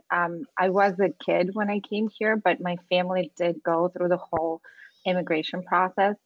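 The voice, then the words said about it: Speaks with an immigrant's accent. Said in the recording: “if you could tell by my accent a little bit, I am an immigrant”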